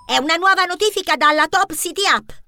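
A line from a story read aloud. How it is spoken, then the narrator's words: Shrill shriek. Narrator (Italian): strillò Benjamin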